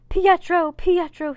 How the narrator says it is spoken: kept on shouting

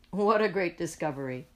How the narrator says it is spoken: says Peter, laughing

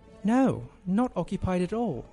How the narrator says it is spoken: she replied with a British accent

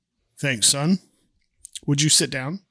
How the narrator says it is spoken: Mike looks at him sternly and says

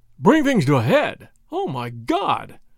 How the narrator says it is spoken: cried Lord Yardley

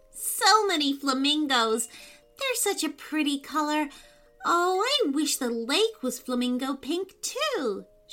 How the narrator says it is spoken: she sighed

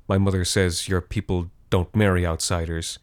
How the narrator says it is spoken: she said

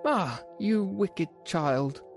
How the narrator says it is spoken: cried the enchantress

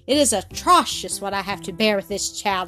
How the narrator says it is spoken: exclaimed Miss Rottenmeier

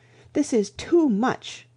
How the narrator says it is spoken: cried the chaplain

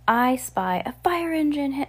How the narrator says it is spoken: cried Henry

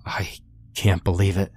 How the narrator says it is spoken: he stammered

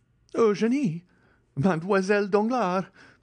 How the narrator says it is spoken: exclaimed Andrea, stupefied

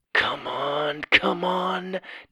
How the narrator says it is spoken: Doug whispered

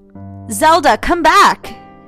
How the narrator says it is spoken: Isabella shouted

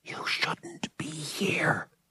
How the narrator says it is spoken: she whispered

